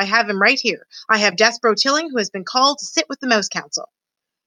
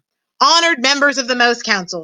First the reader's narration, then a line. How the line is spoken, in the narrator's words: shouted Furlow